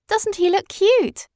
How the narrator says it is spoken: cried Madeline

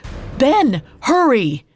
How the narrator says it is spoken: Sumulael shouted

